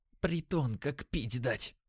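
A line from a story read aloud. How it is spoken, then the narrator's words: Disgusted whisper. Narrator (Russian): прошептал Димон с отвращением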